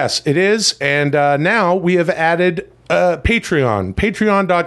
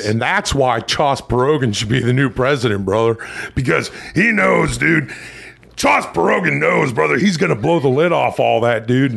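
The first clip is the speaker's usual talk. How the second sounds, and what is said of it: Character voice blending imitated voices. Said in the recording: “Chas Berogan is a combination of my pal Chad and Ross Perot impersonation made popular by Dana Carvey in Saturday Night Live and Hulk Hogan”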